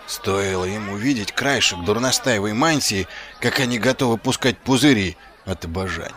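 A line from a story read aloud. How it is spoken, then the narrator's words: Muttered. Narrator (Russian): пробормотал он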